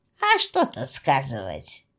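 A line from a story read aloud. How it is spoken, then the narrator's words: Spooky storytelling tone. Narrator (Russian): Данила хмыкнул и продолжил, словно страшилкой малых деток пугал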